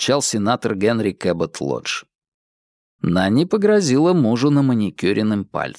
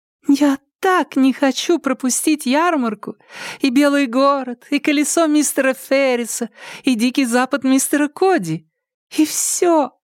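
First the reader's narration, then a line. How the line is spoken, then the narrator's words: Childlike excited exclamation. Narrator (Russian): воскликнула Хелен Джулия Хей таким голоском, словно ей не 18, а на 10 лет меньше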